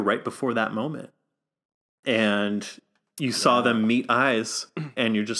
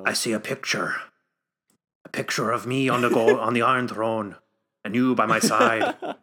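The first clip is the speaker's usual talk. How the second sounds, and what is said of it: Put-on accent that keeps changing. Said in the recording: “my accent keeps fucking changing every 2 seconds”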